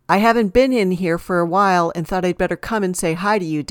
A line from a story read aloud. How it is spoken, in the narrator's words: Del Rio said